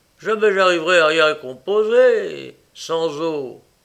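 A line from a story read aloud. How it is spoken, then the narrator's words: Breathless shout. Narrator (French): cria-t-il essoufflé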